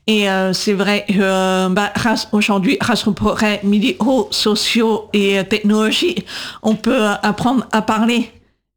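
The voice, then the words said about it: Atypical voice with distinctive accent. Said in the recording (French): “cette voix un peu atypique, cet accent que j'ai ... j'ai gardé cette voix, cette marque”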